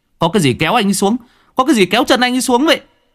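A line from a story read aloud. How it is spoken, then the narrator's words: Shout. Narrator (Vietnamese): Cường hét lên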